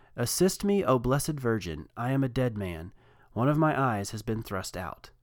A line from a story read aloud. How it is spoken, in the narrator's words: cried out